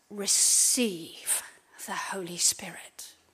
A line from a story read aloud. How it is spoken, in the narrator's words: he breathed on them and said